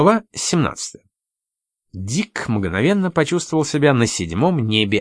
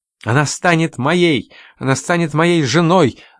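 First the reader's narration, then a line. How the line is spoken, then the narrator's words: Young man shouting. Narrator (Russian): закричал молодой человек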